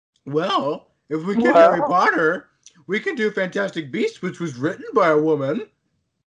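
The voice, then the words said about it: Cartoonishly sarcastic voice. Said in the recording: “if that was your British accent, it was terrible ... cartoonishly sarcastic one”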